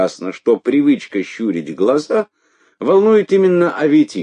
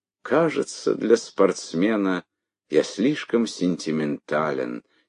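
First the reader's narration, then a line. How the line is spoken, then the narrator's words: Quiet. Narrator (Russian): тихо сказал Аветик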